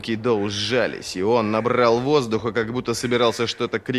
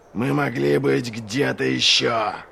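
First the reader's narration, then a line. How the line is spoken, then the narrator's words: Growl. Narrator (Russian): прорычал Доу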